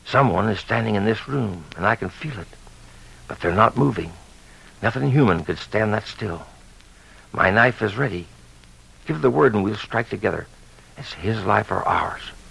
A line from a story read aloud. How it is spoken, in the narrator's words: he whispered